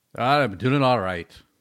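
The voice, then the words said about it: Attempted Scottish brogue. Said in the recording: “In a Scottish brogue. ... As best as I can do it. ... I don't know where the hell I'm from on that one. ... Like Irish English?”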